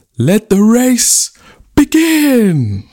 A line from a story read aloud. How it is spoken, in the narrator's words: The chief took a deep breath and cried out